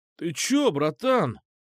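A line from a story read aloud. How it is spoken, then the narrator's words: Surprised exclamation. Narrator (Russian): удивленно воскликнул он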